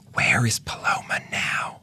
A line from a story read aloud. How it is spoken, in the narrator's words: whispered, like she didn't want the neighbors to hear